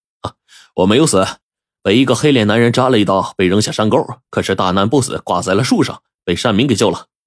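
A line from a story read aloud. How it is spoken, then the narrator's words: Smiling. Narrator (Chinese): 阿石就微笑着说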